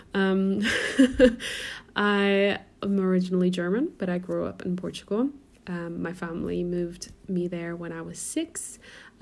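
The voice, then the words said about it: American-sounding accent. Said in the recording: “Why does she sound American? Because I get that all the time.”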